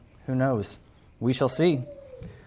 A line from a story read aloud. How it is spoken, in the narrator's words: Again, the farmer softly said